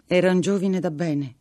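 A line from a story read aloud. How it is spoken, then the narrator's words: Blushing but steady voice. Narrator (Italian): disse Lucia, facendo il viso rosso, ma con voce sicura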